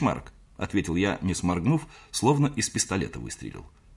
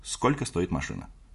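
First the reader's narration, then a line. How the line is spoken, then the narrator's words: Quiet, sharp, rapid question. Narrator (Russian): спросил тихо, резко и очень быстро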